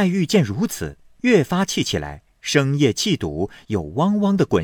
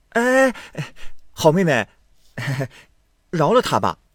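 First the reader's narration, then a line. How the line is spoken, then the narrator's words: Laughing. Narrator (Chinese): 宝玉…笑道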